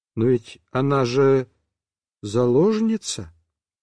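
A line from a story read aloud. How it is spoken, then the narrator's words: Timid questioning. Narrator (Russian): Ванька сказал так робко и с вопросом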